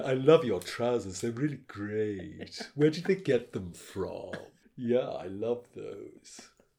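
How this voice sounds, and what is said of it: Affected pretentious put-on accent. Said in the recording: “Very, very pseudo. So I was mimicking his accent.”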